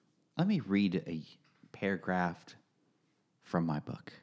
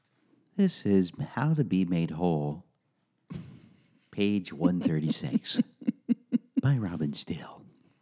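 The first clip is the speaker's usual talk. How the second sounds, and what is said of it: Radio DJ announcer voice. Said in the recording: “in that voice as well ... That's that DJ voice you're afraid of.”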